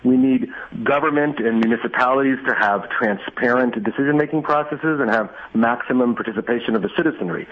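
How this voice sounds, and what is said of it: American accent. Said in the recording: “as your accent reveals, you were raised here in the States”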